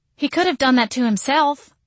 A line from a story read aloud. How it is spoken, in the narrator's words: I exclaimed